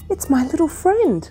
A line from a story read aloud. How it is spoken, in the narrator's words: he exclaimed